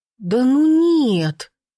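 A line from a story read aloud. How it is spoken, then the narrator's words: Whining. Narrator (Russian): захныкала она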